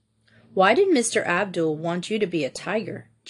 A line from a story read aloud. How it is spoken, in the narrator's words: Jean asked calmly